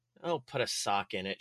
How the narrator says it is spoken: mumbled and muttered under her breath

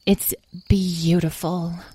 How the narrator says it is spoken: the fairy sighed

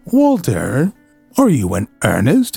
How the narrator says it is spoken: exclaimed Eleanor

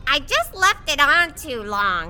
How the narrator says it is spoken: she said

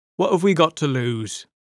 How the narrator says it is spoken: He said evenly

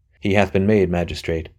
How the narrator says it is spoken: said Anthony dryly

